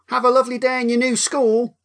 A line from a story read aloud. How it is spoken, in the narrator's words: Jessica's mum said cheerfully